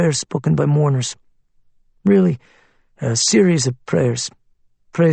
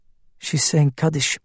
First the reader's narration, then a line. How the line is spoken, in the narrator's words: Aaron said quietly